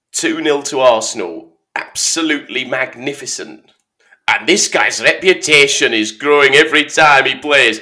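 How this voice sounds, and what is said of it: Football commentator voice impression. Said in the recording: “do an impression of a commentator... I'm going to need to change my tone... it's a bit Alan Hansen, it's meant to be Andy Gray”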